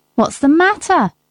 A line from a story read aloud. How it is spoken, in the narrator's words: shouted